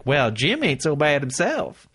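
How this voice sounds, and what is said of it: Put-on Southern accent. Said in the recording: “I don't know why she has a southern accent.”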